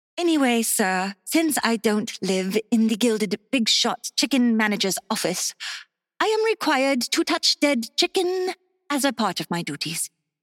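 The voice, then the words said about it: Fake English accent. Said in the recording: “talking with a fake English accent”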